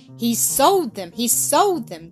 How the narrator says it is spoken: cried Jesse, hopping from one foot to the other

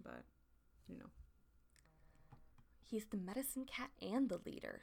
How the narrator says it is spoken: Stormfur mutters to Brambleclaw

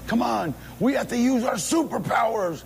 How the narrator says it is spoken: I just started yelling

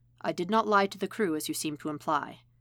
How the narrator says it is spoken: says in his best emotionless tone

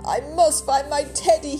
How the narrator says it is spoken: he wailed

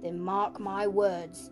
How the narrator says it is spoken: said Mr

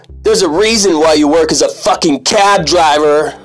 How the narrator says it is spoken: yells

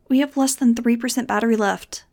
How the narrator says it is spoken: Nudge said nervously

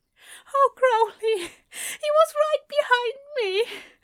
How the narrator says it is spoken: Alistair gasped out

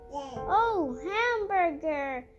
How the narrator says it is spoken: yelled Benny

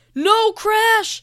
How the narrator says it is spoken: yelled Noah

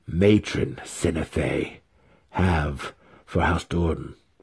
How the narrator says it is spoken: He asked calmly

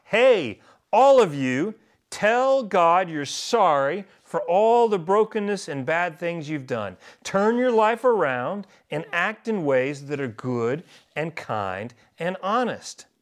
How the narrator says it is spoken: John yelled out

